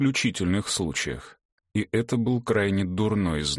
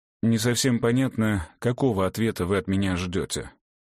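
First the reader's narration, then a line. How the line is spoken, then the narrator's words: Plain. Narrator (Russian): сказал Мартин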